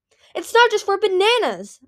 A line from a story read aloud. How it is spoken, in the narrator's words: Mighty Claws cried